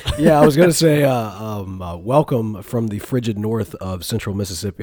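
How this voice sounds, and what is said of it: Unusually deep voice from a cold. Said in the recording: “your voice is deep, man ... I've been fighting off a cold ... my voice, I'm normally that nice high tenor, and now I'm that deep baritone.”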